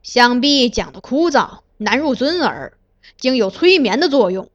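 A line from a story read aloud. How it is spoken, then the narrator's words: Cold anger. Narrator (Chinese): 华学正含怒冷道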